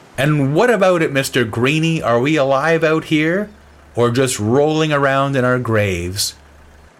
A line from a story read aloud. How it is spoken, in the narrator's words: shouted out to the sea